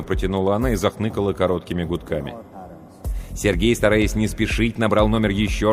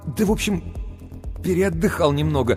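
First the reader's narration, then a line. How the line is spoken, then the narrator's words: Embarrassed babbling. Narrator (Russian): смущенно лепетал Сергей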